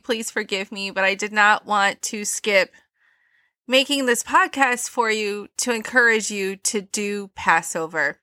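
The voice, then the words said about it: Stuffy congested voice from cold. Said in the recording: “I have a cold. I'm a little stuffy.”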